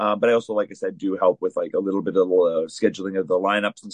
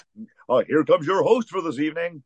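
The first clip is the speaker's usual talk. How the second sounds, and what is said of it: Boxing ring announcer voice. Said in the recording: “put on my best, like put on my best ring announcer voice”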